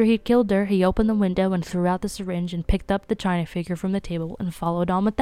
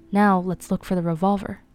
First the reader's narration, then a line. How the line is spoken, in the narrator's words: Vera said in a determined voice